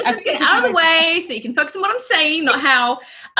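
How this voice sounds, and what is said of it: Mixed New Zealand and American accent. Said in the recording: “you had described your voice as a mongrel voice ... what's the accent that we've got going on here? ... I'm a Kiwi ... I was raised in the States”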